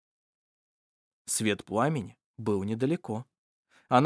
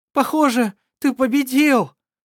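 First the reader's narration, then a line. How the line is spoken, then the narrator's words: Shouting over drums. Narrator (Russian): прокричала она, стараясь перекричать приглушенный грохот барабанов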